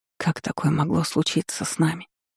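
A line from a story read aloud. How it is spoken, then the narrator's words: Whisper. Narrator (Russian): прошептала Эйлин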